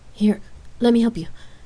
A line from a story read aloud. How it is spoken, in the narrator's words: lovingly offered, eagerly